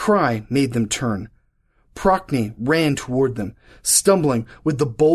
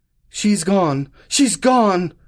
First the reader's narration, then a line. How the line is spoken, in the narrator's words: he cried